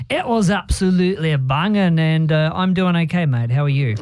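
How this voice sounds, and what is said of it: New Zealand accent. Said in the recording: “your beautiful Kiwi accent”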